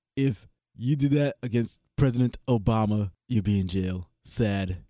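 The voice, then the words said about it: Imitates another person's voice. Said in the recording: “your Donald impression ... I'm still working on it.”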